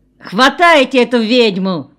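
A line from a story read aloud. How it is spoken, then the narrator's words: Shouted. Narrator (Russian): крикнул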